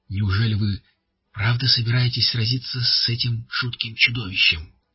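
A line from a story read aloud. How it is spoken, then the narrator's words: Breathy, affected. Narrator (Russian): выдохнуло манерное создание в бледно-голубом платье с оборками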